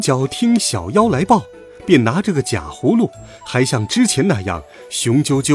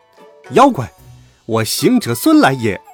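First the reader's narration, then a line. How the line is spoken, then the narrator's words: Stern loud shout. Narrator (Chinese): 悟空……厉声高叫道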